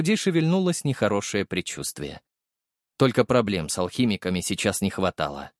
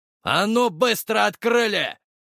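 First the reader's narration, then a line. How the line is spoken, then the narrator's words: Barking. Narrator (Russian): рявкнул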